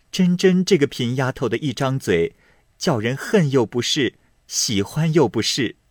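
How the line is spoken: Laughing, teasing. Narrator (Chinese): 宝钗也忍不住笑着……说道

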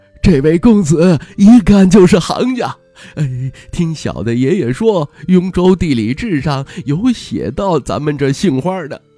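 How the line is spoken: Proud, fawning laugh. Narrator (Chinese): 老板，一半自傲，一半谄媚的笑着

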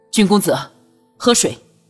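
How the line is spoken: Loud. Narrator (Chinese): 卢林……大声道

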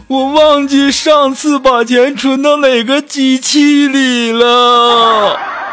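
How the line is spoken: Crying. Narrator (Chinese): 我们的锦凡就哭着说

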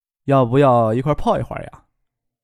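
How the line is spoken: Infatuated asking. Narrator (Chinese): 张克心荡神迷问道

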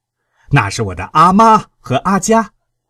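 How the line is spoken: Shouting. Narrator (Chinese): 阿旺加措朝那个士兵喊着

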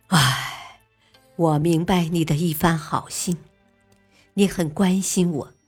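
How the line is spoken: Sighing. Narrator (Chinese): 王景文叹息道

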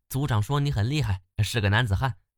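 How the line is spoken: Girl, smiling. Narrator (Chinese): 小姑娘笑着说

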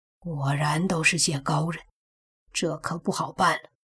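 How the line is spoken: Startled low voice. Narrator (Chinese): 他身子一震 低声的说道

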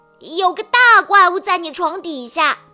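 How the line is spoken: Shouting. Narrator (Chinese): 小猪喊了起来

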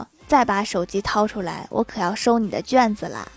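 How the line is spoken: Calm, indifferent. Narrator (Chinese): 她听完并没有生气，淡淡的说

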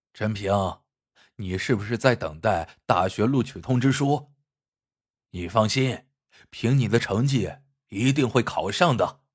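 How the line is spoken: Heartbroken, low voice. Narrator (Chinese): 伤心欲绝的陈卫南低声说

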